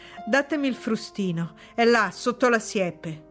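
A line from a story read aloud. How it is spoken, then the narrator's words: Strained, holding back a scream. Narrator (Italian): disse lasciando andare il labbro inferiore che si era morsicato per non urlare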